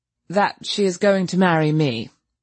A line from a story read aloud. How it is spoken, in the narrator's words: said Cecil stiffly